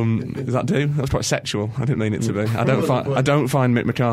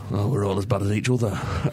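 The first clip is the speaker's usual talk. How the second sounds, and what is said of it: Mick McCarthy impression. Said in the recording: “in Mick McCarthy's accent”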